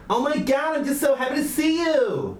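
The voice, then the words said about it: Put-on camp New York accent. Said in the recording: “That's your gay New York. ... That's pretty good. ... I can say any sentence in a gay New York accent.”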